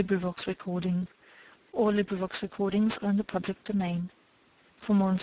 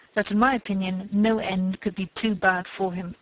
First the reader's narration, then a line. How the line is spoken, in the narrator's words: she replied scornfully